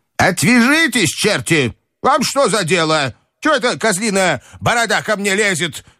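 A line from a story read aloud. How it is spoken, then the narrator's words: Angry shouting woman. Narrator (Russian): кричала она на де Грие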